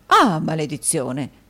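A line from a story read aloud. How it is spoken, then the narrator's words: Dismayed exclamation. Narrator (Italian): esclamò il signor Mantalini, che allungò considerevolmente il viso a quella proposta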